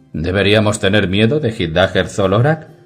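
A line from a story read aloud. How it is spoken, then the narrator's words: Asked laughing. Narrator (Spanish): preguntó Jerry Stringwater entre risas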